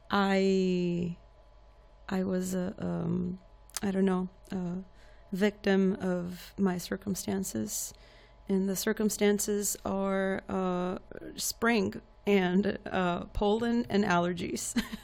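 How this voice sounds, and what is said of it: Slightly hoarse voice. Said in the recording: “I am recovering. My voice is still, excuse me, a little bit hoarse.”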